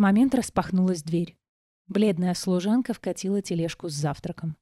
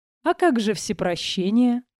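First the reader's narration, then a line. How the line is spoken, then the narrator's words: Laughing. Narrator (Russian): рассмеялся Иридан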